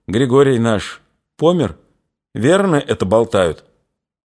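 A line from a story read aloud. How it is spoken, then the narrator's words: Sighing, thoughtful question. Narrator (Russian): Дуняшка вздохнула и, задумчиво спросила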